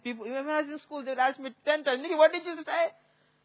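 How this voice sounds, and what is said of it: Heavy accent. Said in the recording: “I have a heavy accent.”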